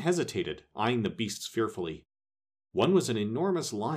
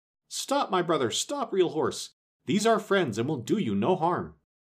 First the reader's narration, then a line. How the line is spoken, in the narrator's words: the sawhorse cried out